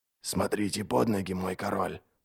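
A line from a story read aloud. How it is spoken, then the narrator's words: Muttered. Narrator (Russian): пробормотал Адем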